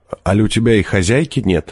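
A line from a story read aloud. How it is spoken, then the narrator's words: Plain. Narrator (Russian): спросил я его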